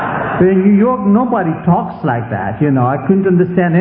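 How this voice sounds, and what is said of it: Usual voice. Nothing is said of it.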